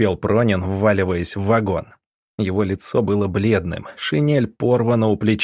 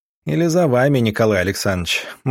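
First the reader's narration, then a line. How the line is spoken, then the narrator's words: Gloomy reply. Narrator (Russian): мрачно отозвался доктор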